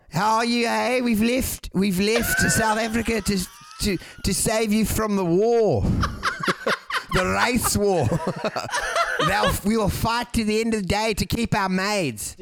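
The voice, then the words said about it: Put-on South African accent. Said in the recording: “How good was my South African accent last night? ... Could you do an impression? Like, do that again?”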